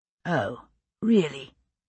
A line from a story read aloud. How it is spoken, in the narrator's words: William said coldly